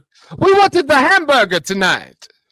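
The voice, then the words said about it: Mock German accent. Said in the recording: “That was my German accent. ... Oh, I thought it was Italian.”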